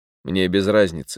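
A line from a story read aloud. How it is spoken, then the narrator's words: Calm. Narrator (Russian): спокойно сказал сыщик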